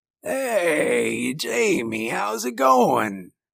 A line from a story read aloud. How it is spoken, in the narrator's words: rasped